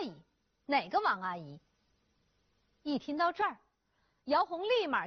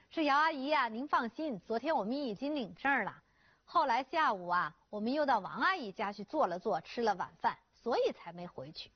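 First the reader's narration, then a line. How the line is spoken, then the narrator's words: Smiling, placating. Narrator (Chinese): 静静就陪着笑脸解释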